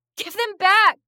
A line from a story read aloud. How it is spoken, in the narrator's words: I screamed